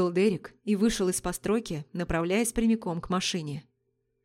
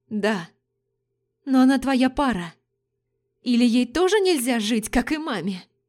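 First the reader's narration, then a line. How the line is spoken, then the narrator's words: Trembling question. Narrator (Russian): Дрожащим голосом спросила Адель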